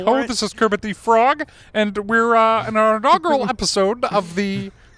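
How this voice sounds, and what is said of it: Kermit the Frog character voice. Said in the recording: “That was a Kermit the Frog impersonation.”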